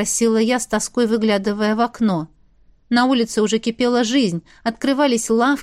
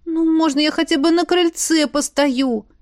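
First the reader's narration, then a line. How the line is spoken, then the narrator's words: Pleading. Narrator (Russian): Взмолилась я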